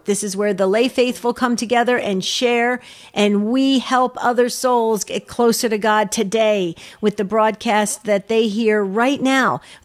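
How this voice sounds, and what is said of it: Intense, excited, urgent delivery. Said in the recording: “You hear the intensity in my voice ... you can hear my excitement and urgency”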